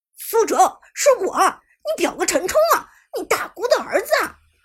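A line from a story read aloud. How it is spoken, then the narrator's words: Desperate hoarse scream. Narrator (Chinese): 绝望的陈冲声嘶力竭的喊道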